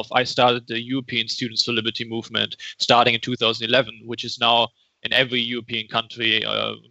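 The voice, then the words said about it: Strange non-native accent. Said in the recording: “a strange accent”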